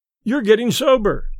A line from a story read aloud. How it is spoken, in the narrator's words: cried a third